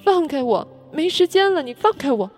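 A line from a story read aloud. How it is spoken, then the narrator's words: Crying and shouting. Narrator (Chinese): 连哭带嚷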